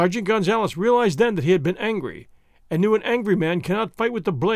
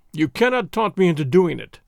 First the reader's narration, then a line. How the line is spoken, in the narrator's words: the highwayman replied, chuckling again